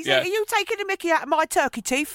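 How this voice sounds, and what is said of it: Put-on London accent. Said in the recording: “he put on a London accent.”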